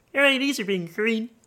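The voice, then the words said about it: Imitates Miss Piggy character voice. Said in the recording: “I'm Miss Piggy. ... That's pretty good. ... That's probably your best impression you've ever done.”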